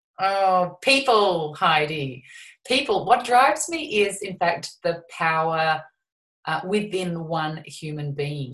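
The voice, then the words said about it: Australian accent. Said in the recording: “comes from down under ... Love the accent”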